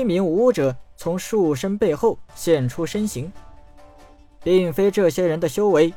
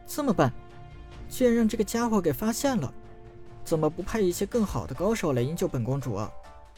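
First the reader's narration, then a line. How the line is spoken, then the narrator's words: Girl muttering, grumbling. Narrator (Chinese): 小公主一边低声咒骂陈南，一边咕哝道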